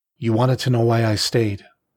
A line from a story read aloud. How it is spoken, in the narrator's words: she finally said, her voice now timid